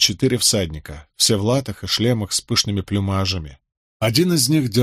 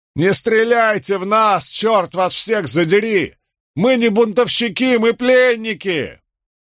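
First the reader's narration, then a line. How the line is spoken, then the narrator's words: Full-throated bellow. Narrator (Russian): заорал во всю глотку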